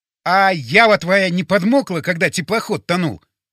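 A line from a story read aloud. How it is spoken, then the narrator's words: Near shout. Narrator (Russian): почти закричал я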